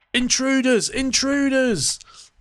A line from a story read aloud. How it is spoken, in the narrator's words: shouting